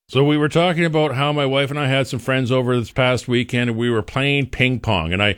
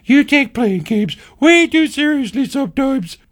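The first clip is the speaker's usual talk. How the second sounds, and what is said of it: Imitates another person's voice. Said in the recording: “My impression of my wife is getting spot on here.”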